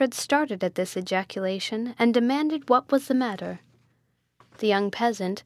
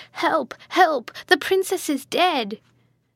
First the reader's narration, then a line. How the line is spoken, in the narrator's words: Bianca shrieked and cried